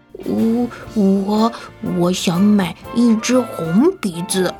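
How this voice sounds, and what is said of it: Soft, quiet, stammering voice. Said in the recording (Chinese): “小声地说”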